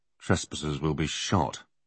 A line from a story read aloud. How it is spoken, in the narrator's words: Alex muttered to himself